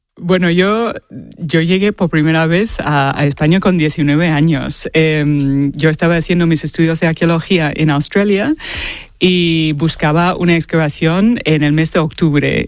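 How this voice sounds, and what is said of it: Australian accent in Spanish. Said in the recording (Spanish): “tienes un acento australiano, vamos, pero no vamos, te lo hemos notado la primera”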